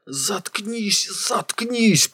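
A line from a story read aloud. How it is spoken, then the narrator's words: Hissed. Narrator (Russian): прошипел Койн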